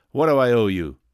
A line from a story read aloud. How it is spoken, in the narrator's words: demanded Tom harshly